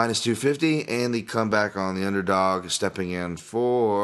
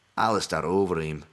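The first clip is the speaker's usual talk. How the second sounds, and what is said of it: Put-on Scottish accent. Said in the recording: “why did I say a Scottish accent?”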